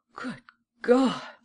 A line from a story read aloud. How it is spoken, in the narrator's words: she exclaimed